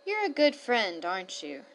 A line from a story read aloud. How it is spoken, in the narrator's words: she murmured to the bird